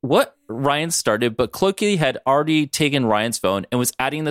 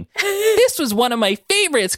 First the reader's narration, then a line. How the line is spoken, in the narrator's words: Clokey said with a giggle